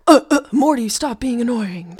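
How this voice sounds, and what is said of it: Impression of Rick from Rick and Morty. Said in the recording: “My impression of Rick.”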